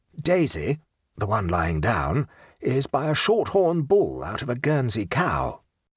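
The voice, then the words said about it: Hushed, quiet voice. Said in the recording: “in a hushed voice,”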